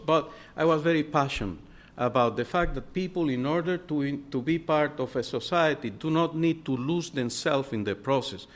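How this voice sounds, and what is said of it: Noticeable foreign accent. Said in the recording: “If you can see my accent now, you can imagine in the 70s.”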